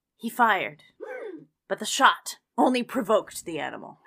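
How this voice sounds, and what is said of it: Spooky storytelling voice. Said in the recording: “My spooky voice ... spooky voice”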